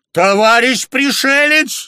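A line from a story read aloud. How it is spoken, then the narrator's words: Shouted. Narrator (Russian): закричал Батыев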